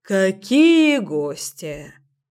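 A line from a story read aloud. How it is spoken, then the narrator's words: Grumbling. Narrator (Russian): проворчала Ира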